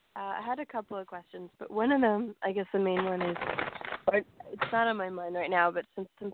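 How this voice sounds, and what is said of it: Sick-sounding voice. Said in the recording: “I'm sick, so my voice might sound...”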